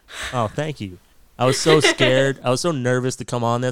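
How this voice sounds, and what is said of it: Canadian accent. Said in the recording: “my boring ass accent ... who is this hick from Canada”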